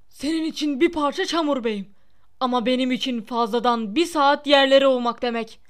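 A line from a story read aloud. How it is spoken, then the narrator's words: Shouted. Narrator (Turkish): diye bağırdı Filch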